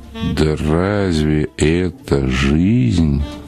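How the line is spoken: Sad reply. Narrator (Russian): Фильденберг грустно развел руками и ответил

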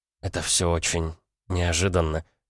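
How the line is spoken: Strained, forced out. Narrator (Russian): выдавила, наконец, девушка

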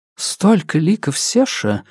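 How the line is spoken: Whisper. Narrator (Russian): шепнула мне Яридин

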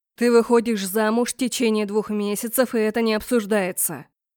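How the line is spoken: Father roaring. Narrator (Russian): взревел отец

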